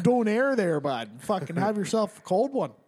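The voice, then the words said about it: Goofy put-on far-northern accent. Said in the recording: “That whole like Fargo accent is just like a diluted Canadian accent, which is a diluted Alaska accent ... the more north you go, the more goofy they sound”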